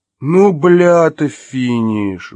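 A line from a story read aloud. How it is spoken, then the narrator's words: Nasal yell. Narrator (Russian): взопил гнусавый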